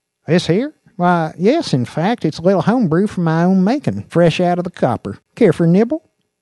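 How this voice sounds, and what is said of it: Country accent character voice. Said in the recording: “The man spoke with a country accent”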